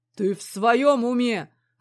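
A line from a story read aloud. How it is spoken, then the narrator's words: Restrained growl. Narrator (Russian): рычал Михей, кажется, с трудом сдерживая оборот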